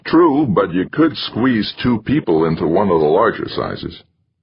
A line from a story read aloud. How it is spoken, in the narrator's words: With a chuckle, Jamie replied